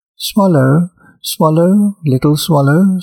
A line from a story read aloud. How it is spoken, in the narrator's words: said the prince